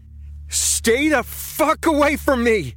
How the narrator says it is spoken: He screamed

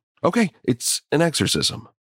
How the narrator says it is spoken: Ryan shifted uncomfortably before blurting out

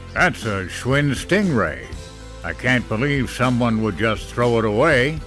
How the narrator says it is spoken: he muttered

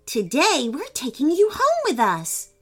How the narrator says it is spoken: exclaimed Emily

